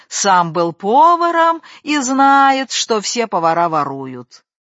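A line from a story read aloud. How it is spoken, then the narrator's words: Insolent mocking singsong. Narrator (Russian): чубатый вслед ему нагло и насмешливо пропел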